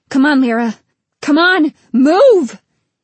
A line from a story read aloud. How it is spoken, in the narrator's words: He was still shouting